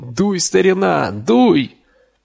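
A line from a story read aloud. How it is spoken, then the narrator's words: Yelling. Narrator (Russian): Дин вопил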